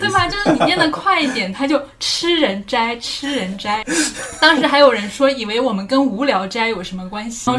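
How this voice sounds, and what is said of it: Southern accent in Mandarin. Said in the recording (Chinese): “我南方口音的原因...我普通话口音的问题”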